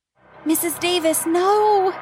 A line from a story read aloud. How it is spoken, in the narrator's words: I screamed as tears streamed down my face